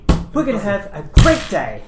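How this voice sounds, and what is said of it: Overly cheerful character voice. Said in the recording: “do the voice. ... Is this your voice really happy? ... It's like a great day rammed down your throat.”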